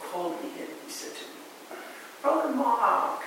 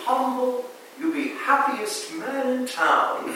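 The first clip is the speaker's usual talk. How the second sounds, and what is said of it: Put-on Vietnamese accent. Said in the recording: “he spoke with a typical, charming Vietnamese accent. He was actually rather difficult to understand.”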